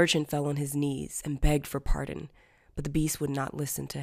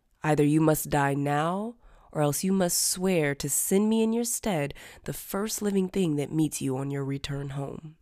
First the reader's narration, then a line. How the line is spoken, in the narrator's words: he said